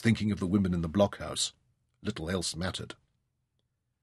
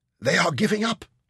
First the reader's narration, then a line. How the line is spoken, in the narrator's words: Bakhshid panted